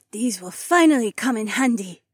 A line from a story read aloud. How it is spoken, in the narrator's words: Haywan gasped